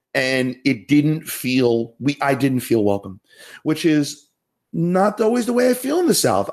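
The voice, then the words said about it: Northern US Yankee accent. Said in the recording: “this Yankee accent”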